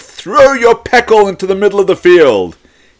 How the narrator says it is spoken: Suddenly a voice booms

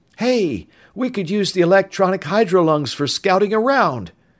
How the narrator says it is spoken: he added eagerly

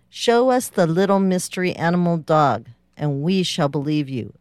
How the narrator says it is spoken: a chief said

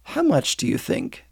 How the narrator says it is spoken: asked Virginia quietly

